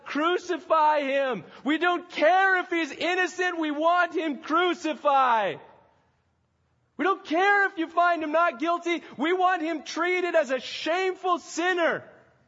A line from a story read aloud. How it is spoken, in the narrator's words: they keep shouting out